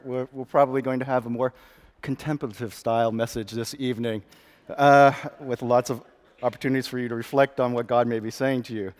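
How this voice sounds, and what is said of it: Slightly gruff voice. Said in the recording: “I'm fighting off a cold of some sort, so I might be coughing a bit. And my voice is going to be a little bit gruffer.”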